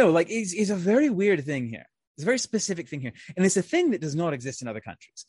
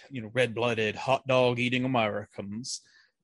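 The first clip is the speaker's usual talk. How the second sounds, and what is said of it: Exaggerated, poor American accent. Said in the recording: “That was the worst American accent I could do.”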